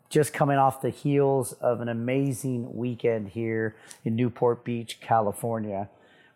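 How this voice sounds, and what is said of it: Hoarse, strained voice. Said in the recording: “my voice is shot. My voice is shot”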